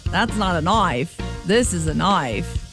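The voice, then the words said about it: Bad put-on Australian accent. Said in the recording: “That's an atrocious Australian accent,”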